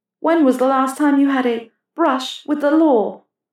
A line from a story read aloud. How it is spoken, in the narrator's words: Hermione groaned